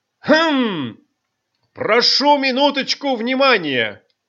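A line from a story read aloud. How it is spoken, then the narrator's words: Boy clears throat, loud. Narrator (Russian): мальчик откашлялся и громко сказал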